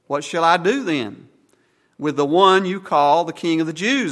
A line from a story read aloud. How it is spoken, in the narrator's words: asked Pilate